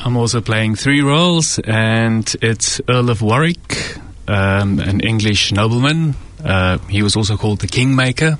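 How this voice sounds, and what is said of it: Clear South African accent. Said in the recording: “there's a very clear accent there ... from South Africa”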